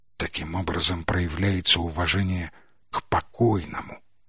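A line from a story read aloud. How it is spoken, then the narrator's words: Man whispering. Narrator (Russian): прошептал мужчина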